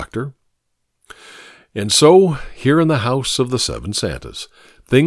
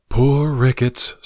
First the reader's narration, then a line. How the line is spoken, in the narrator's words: sighed the doctor